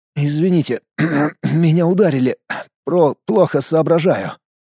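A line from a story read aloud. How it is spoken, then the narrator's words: Mumbling. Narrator (Russian): пробормотал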